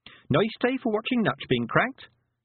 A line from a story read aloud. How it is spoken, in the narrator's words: said Tiffany cheerfully